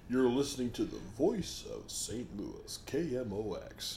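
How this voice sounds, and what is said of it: Golden radio announcer voice. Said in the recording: “golden radio voice”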